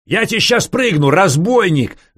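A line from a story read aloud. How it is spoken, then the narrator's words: Yelling. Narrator (Russian): заорал Ванька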